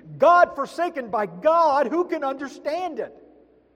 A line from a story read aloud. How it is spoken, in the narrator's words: They heard him screaming